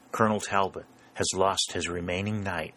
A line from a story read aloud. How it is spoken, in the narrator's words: whispered St